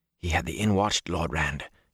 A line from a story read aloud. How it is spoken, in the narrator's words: Huron whispered